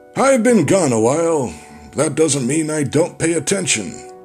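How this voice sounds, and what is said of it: Imitates another person's voice. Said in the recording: “I'm a bad impression of the late Robert Stack.”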